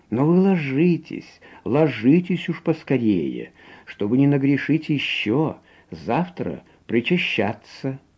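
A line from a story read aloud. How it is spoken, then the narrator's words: Gentle, affectionate. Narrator (Russian): ласково бывало говорит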